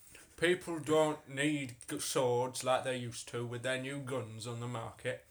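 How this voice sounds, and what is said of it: Put-on character accent. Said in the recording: “I've changed my accent.”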